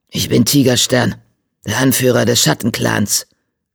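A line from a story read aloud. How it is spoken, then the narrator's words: Growling. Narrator (German): knurrte er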